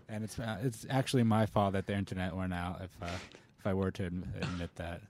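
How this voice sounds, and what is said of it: Monotone voice. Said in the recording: “I got the monotone voice”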